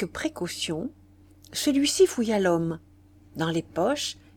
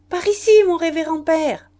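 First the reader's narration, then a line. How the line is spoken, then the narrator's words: Calling out. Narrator (French): criait sœur Hyacinthe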